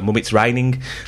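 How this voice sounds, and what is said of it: Put-on nasal Birmingham accent. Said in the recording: “a very specific accent. A Birmingham accent is like this, right? And it's really kind of nasally, a bit boring, everything's down.”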